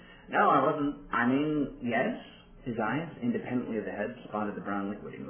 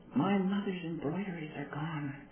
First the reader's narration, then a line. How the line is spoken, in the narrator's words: Donna hissed quietly